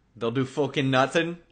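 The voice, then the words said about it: Put-on Irish accent. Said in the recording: “Do your Irish accent.”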